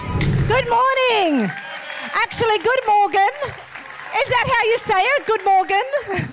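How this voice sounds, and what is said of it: Strong Australian accent. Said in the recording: “I feel like I've got a very even stronger Australian accent than I had a few years ago”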